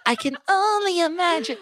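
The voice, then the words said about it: Imitates another person's singing voice. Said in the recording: “do an Idina Menzel impression ... Flawless. No notes.”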